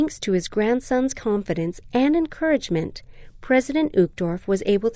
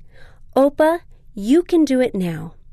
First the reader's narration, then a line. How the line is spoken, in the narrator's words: his grandson said firmly